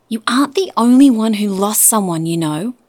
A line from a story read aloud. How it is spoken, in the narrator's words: Nyssa cried out from the hallway